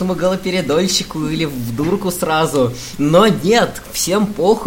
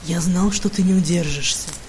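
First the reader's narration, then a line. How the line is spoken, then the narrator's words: Purring. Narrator (Russian): промурлыкал он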